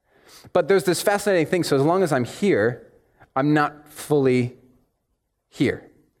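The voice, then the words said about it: American accent. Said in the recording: “My accent, the way I speak, the way I communicate, will always identify me as someone different from like your standard Kiwi ... when I go back to the States”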